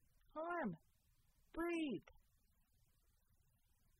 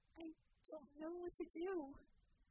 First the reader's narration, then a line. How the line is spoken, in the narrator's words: she said softly